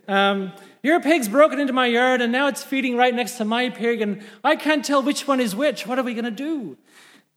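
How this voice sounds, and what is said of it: Put-on Irish accent, possibly poor. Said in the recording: “Excuse my Irish accent if it's terrible.”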